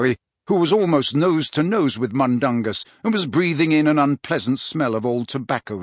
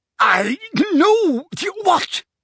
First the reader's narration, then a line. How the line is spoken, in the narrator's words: spluttered Mundungus, who was slowly turning purple